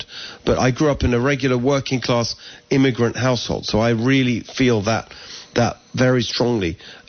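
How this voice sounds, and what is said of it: English accent. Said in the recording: “So we moved here from England, as people can hear my accent.”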